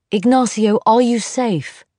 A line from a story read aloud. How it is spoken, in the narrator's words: he shouted